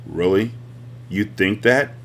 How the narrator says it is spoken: asked in his flat voice, which he sometimes wished were more musical, but he knew lent a sober conviction

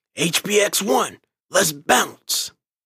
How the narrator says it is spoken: roared a command

